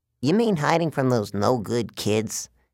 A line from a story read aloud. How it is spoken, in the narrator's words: grumbled